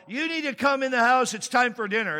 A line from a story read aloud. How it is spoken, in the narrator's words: Gloria ... she yelled